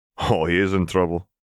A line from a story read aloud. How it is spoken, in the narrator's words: Robert chuckled